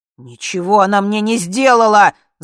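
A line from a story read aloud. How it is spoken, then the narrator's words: Yelled reply. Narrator (Russian): заорал муж в ответ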